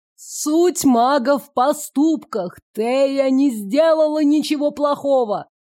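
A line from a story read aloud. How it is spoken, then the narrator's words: Shout. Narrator (Russian): крикнул он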